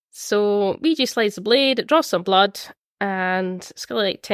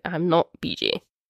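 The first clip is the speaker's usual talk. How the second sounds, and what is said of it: Deep put-on character voice. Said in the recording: “in like this deep voice”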